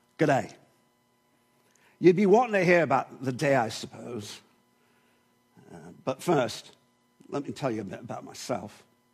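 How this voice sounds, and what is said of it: Put-on New Zealand accent. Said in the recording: “in the words of a New Zealand shepherd ... I apologize to my Kiwi friends for my accent. It's been a few years, and so there may be a little bit of palm mixed in with this.”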